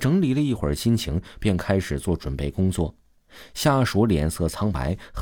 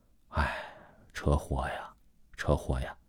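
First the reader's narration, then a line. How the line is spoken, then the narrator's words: Inward lament. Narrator (Chinese): 朱云心里感叹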